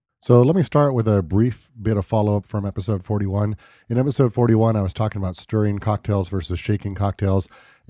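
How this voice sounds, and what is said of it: Rough, hoarse voice. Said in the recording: “my voice sounds a little bit like I've been gargling overproof rum ... I'm getting over a cold”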